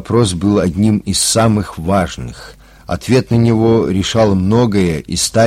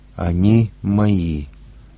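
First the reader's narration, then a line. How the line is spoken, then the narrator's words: Quiet. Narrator (Russian): тихо произнесла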